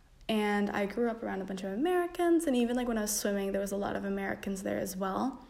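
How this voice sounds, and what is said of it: American accent. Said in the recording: “which is why I have an American accent.”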